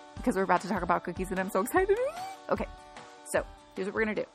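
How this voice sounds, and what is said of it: Excited, slightly out of breath. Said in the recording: “Can you tell by my voice? And the fact that I'm a tiny bit out of breath”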